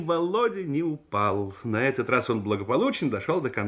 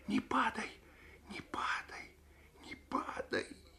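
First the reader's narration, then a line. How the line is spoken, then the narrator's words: Whispering to herself. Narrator (Russian): Оля шептала про себя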